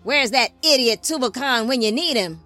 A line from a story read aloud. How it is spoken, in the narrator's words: Father Lamech grumbled